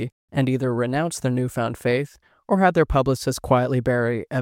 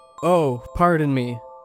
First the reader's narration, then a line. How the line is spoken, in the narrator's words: loudly enough that it woke his wife